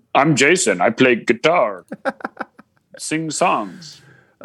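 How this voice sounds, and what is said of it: Imitates another person's voice. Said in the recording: “Was that your Jason impression? I don't know what that was.”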